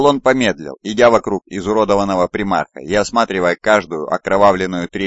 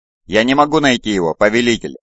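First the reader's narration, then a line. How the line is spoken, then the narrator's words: Plain. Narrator (Russian): ответил Эйдолон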